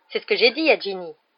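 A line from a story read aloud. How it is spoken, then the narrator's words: Fierce tone. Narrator (French): dit Percy d'un ton féroce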